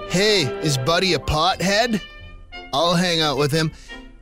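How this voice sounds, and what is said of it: Mocking stoner-style voice. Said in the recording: “That's me just sort of mimicking how you might speak.”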